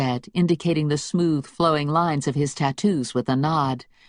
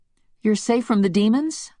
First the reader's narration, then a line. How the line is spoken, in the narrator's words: I asked, my voice full of hope